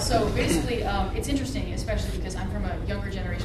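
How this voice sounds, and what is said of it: Very fast speech. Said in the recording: “I'm talking super fast”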